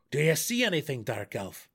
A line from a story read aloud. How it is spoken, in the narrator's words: Belwar called out as loudly as he dared